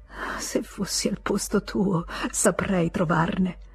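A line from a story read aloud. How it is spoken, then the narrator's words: Whispered. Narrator (Italian): Lui la sentì bisbigliare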